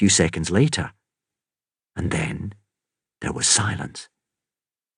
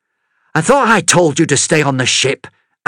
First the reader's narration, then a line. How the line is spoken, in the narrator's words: Amity snapped